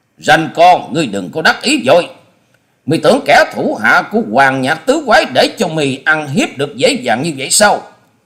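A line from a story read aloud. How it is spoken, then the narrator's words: Loud bellowing roar. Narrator (Vietnamese): một giọng sống lên như trâu kêu quát to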